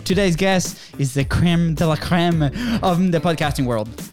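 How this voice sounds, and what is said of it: Put-on French accent. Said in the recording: “French accent”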